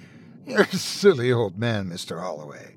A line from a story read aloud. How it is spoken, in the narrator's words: the way she would always laugh at him and shake her head, saying